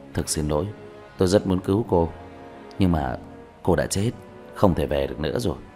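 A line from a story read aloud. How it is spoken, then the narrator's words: Gentle, with a sigh. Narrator (Vietnamese): Diệp Thiếu Dương thở dài, nhẹ nhàng nói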